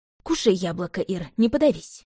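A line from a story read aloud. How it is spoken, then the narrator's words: Grumbling mutter. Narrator (Russian): буркнула я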